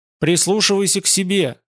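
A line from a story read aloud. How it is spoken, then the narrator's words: Plain. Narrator (Russian): сказал Азазель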